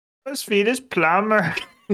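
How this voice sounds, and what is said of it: Matthew McConaughey as Swedish plumber. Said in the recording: “that was Matthew McConaughey as a Swedish plumber ... add that little bit of back of the throat, kind of smooth ... Get a little bit of a draw in there”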